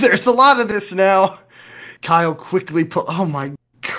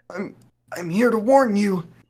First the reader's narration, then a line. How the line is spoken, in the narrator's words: Declan said weakly